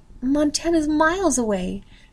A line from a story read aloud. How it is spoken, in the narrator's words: she said, her voice rising